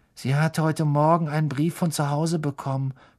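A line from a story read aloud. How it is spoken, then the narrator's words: Whispered. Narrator (German): flüsterte Parvati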